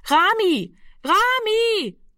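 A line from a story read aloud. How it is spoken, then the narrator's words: Repeated calling into darkness. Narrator (German): rief sie fortgesetzt in die Dunkelheit hinein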